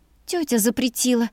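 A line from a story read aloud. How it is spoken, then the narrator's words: Sad breathy sigh. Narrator (Russian): печально выдохнула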